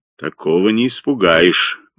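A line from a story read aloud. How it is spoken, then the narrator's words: Gloomy remark. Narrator (Russian): мрачно заметил Блек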